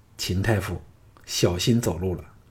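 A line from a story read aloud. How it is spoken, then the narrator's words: Whisper in ear. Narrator (Chinese): 凑到他耳旁低声说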